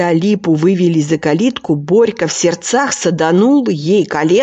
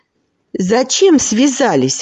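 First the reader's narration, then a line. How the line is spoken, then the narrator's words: Indignant question. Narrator (Russian): возмущенно спросил Стасик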